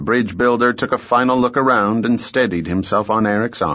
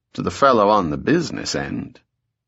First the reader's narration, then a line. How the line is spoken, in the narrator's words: Mowry said dryly